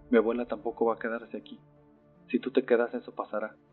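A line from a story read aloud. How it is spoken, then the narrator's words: Plain. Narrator (Spanish): contestó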